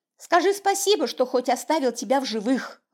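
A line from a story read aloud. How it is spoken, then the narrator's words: Snapped. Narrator (Russian): огрызнулась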